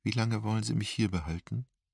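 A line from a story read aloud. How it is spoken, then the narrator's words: Quiet question. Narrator (German): fragte leise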